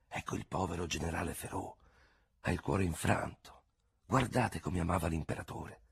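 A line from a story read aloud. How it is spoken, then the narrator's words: Crowd whispering. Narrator (Italian): la gente bisbigliava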